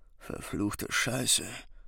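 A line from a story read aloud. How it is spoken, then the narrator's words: Tired mumble. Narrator (German): murmelte er müde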